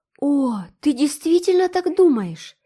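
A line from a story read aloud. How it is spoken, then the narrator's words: Joyful exclamation. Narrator (Russian): воскликнула Энн, вспыхивая от радости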